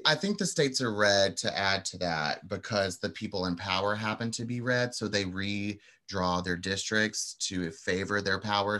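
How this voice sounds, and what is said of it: Slight Southern twang. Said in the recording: “I heard a little Southern twang in there.”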